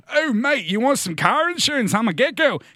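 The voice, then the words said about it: Smug put-on Australian accent. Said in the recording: “all smug and Australian”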